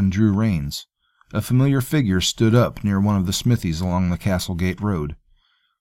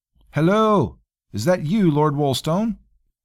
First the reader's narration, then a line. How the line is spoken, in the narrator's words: Outside of the gate, a voice called out